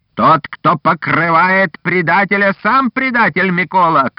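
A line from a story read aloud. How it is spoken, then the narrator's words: Shouting. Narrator (Russian): крикнул Шухевич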